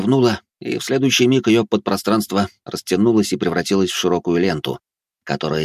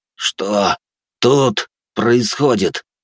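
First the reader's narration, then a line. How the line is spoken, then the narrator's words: Hissed through teeth. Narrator (Russian): сквозь зубы процедил я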